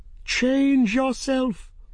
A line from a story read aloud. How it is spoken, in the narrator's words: Serret screamed at him